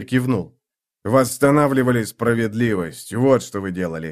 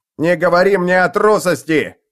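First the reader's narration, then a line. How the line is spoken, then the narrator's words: Shout. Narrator (Russian): крикнул жри-крыс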